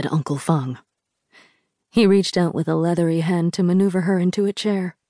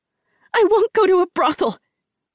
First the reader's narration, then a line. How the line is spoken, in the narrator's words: Rin yelled